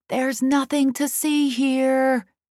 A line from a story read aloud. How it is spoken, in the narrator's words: I shout into his face